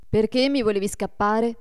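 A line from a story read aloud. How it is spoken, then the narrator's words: Reproachful question. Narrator (Italian): gli domandò Adolfo in tono di rimprovero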